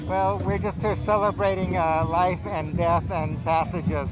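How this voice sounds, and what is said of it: Muffled voice through a mask. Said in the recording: “you're wearing a skull mask, which is why your voice is going to sound a little odd”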